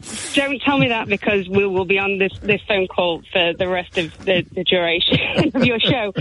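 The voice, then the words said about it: Chesterfield Derbyshire English accent. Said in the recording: “Your accent is my favourite accent in the whole of England. ... From Chesterfield. ... That little corner of Derbyshire ... I absolutely love your accent.”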